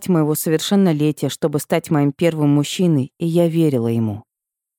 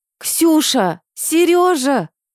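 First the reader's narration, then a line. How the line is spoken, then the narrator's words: Yelling with full force. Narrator (Russian): Заорала, что было мочи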